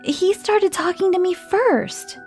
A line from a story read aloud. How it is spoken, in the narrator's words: he replied in a shouting voice